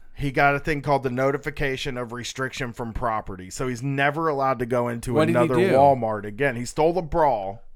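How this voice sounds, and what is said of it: Midwestern American accent. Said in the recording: “I have an accent. I'm sorry. I'm Midwestern.”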